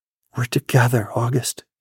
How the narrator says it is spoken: whispered

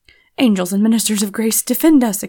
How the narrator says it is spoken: exclaimed George

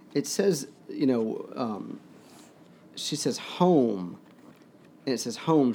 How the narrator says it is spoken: she said thickly

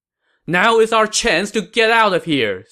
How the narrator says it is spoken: Sima Yi shouted

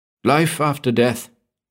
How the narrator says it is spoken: Maurice blurted

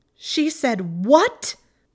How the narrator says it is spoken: Hermione shrieked the question

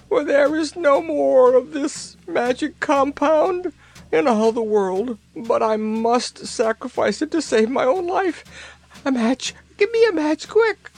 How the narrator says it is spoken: she wailed

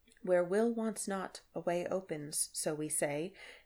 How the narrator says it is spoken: he whispered

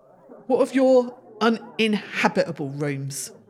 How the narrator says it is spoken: Dunn spat

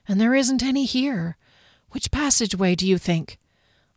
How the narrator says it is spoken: whispered back

